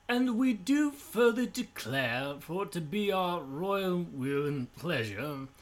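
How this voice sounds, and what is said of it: Put-on regal British accent. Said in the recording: “a very royal-speaking British accent”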